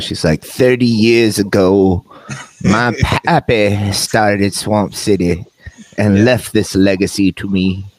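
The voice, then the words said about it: Put-on Southern American accent. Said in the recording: “why does Tyler's daughter sound like Scarlett O'Hara? You're killing me with the accent. ... sound like they're from the South”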